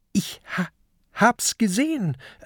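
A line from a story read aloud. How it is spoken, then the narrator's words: Trembling voice. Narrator (German): erwidert Peter mit zitternder Stimme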